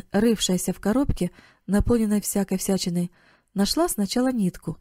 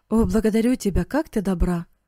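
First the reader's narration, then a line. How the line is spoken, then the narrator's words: Exclaimed. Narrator (Russian): воскликнул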